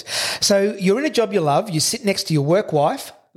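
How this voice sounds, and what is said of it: Husky, hoarse voice. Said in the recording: “Do I sound all husky? ... You sound like you've got my hay fever. ... It's really husky, isn't it? ... in my husky voice.”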